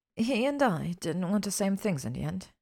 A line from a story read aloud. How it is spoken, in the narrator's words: Hermione said quietly, already regretting it